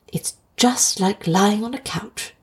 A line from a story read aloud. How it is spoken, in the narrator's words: whispered Lewis